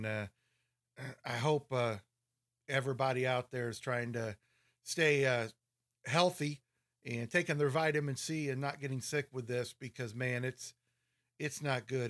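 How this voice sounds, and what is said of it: Raspy voice. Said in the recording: “please forgive me for my raspy voice. It's got that nasty cold”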